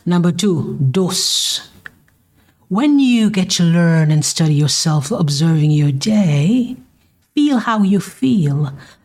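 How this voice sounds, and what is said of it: Caribbean island accent. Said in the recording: “I'm from the island, so you're going to get it. You're going to get that papa accent here and there.”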